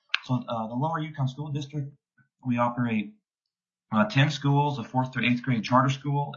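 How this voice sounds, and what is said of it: Speaking with a sore throat. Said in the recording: “I've got a bit of a sore throat.”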